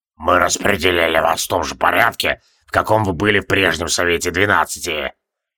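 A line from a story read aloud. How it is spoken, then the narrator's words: Cold. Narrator (Russian): холодно произнес Тевилдорм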